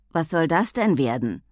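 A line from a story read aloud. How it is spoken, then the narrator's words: Gruff question. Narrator (German): erkundigte sich mit schroffer Stimme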